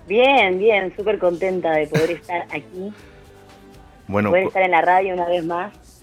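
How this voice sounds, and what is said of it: Argentine Spanish accent. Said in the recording (Spanish): “tu acento ... ¿uruguaya o argentina? ... Argentina, totalmente. Argentina, Argentina.”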